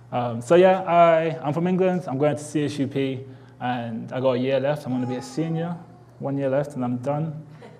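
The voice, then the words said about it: Strong British English accent. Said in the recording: “I'm British, as you can probably tell by now ... my accent might be a little bit extra strong today”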